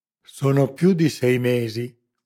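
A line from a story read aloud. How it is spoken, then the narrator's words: Cavernous voice. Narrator (Italian): cominciò lo spagnolo con la sua voce cavernosa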